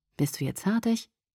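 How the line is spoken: Toneless question. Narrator (German): fragte tonlos

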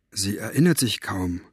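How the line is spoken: Quiet. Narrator (German): sagte Mo leise

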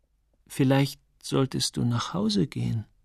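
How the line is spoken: Hesitant. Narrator (German): sagte er zögernd

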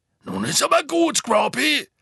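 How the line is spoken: Called out. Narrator (German): rief Hagrid

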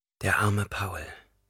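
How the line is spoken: Whispered. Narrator (German): flüsterte

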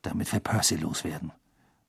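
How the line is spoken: Muttered to another. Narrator (German): murmelte Ron Harry zu

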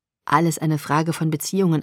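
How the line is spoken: Plain. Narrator (German): antwortete er

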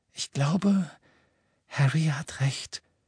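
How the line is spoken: Quiet. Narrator (German): sagte Hermine leise

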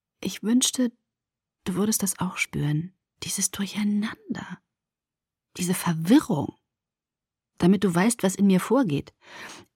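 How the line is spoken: Whisper. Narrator (German): flüsterte

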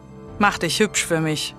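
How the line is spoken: Growled. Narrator (German): knurrte er

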